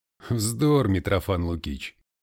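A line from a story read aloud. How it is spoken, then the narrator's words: Laughing. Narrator (Russian): рассмеялся Ахиллес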